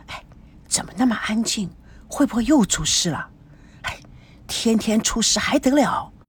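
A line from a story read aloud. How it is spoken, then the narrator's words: Worried, soft. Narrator (Chinese): 孙娜担心的轻声说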